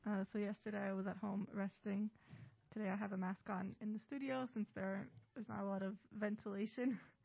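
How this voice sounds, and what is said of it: Slightly sick, congested voice. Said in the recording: “I have a bit of a cold ... Hopefully I don't lose my voice”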